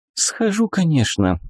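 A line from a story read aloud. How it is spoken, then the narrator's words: Sighing. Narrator (Russian): вздохнула Вика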